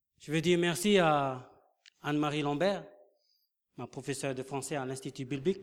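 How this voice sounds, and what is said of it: Non-native French accent, unrolled R. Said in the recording (French): “mon accent n'est pas vraiment français ... Parce que le R chez nous, on ne peut pas la rouler”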